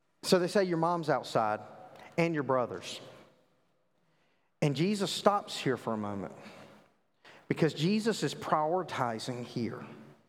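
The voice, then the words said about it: Southern US accent. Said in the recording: “I grew up in the South. I know you can't tell that with my, you know, my eloquent accent”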